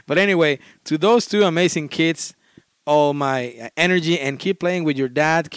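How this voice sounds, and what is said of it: Speaks English with an accent. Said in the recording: “with my accent”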